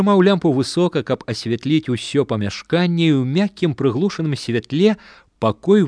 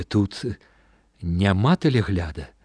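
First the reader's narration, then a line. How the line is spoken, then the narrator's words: Involuntary whisper. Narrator (Belarusian): мімаволі прашаптаў ён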